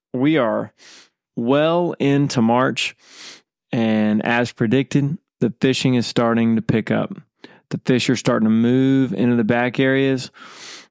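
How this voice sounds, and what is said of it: Nasal, congested voice. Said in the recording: “my voice is a little nasally... that's why I sound this way”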